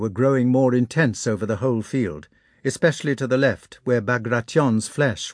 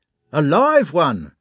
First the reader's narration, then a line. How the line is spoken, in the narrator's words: shouted a man as a whistling shell approached